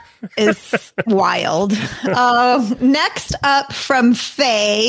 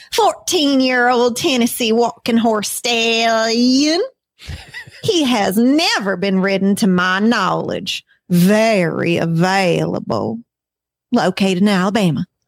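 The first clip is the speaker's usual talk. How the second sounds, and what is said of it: Put-on Southern US accent. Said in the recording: “so I can do my southern accent”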